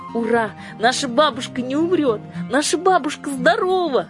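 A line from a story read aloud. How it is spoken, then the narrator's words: Joyful shout. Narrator (Russian): закричала Юлька и от радости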